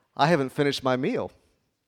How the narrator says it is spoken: The truck driver said calmly

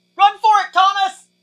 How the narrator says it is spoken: she shouted

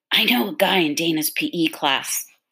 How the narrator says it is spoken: he whispered excitedly

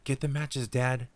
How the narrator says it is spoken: David cried

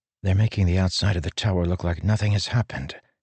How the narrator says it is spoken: he whispered to Syl

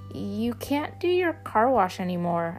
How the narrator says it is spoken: I squeaked out

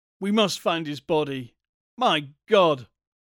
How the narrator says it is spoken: he cried, unmanned by the abysmal horror of the thing

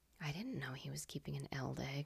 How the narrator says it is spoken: murmured

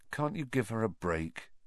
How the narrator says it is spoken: Harry asked Ron quietly

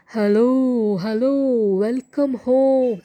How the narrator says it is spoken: the lion roared out

